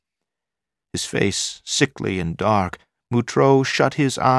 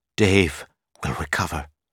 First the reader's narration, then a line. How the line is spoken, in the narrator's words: she whispered